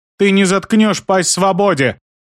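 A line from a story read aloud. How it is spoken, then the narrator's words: Girl shouting. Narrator (Russian): крикнула девочка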